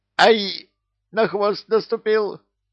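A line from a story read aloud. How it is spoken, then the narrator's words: Shrieking. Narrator (Russian): взвизгнул кто-то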